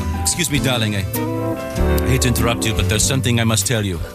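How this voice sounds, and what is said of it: Vague put-on European accent. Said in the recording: “It's that strange European accent that you can't quite place.”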